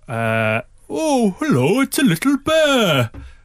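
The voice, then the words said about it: Imitates another person's voice. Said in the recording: “my impression of Chris doing an impression of Jim Broadbent”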